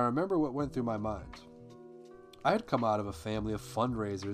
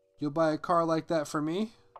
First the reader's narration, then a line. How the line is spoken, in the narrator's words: laughed again, and he said